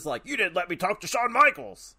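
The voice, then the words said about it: Imitates another person's voice. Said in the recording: “my Doc Hendricks impersonation”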